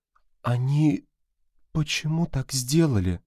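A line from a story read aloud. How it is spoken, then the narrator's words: Quiet question. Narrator (Russian): спросила когната негромко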